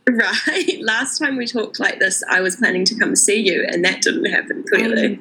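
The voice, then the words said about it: New Zealand accent. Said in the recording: “another Kiwi accent”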